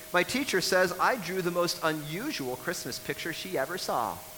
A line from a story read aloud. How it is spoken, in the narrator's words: exclaimed